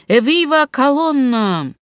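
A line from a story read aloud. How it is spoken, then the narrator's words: Penitents shouting. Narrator (Russian): кающиеся закричали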